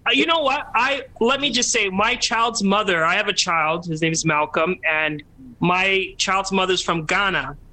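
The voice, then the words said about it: Put-on 'Becky' character voice. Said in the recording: “put on my Becky voice”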